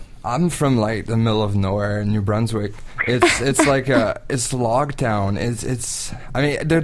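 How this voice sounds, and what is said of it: Canadian accent. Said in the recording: “I love your accent”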